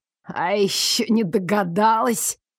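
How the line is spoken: Contemptuous snort. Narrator (Russian): Слуга презрительно хмыкнул

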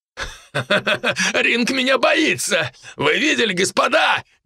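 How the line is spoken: Nervous loud laughter. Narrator (Russian): нервно захохотал Питер

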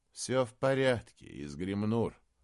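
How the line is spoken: Tired. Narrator (Russian): устало сказал Эолейр

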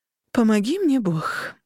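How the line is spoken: Mother sighing. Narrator (Russian): вздохнула мама

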